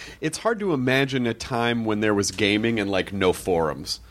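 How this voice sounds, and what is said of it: Usual voice. Nothing is said of it.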